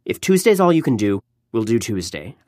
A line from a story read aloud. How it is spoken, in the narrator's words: I said quickly